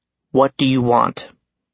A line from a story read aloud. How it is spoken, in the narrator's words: I tried to keep my voice even